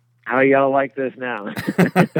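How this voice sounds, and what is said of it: Put-on Texan drawl. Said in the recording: “is he going to sound like a Texan?... Wow, instant change.”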